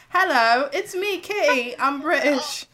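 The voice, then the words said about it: Put-on British accent, cartoon character. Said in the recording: “Hello Kitty British accent”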